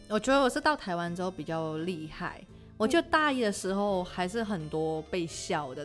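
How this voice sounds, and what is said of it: Slight foreign accent in Mandarin. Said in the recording (Chinese): “你中文讲的很好……就是一点点口音”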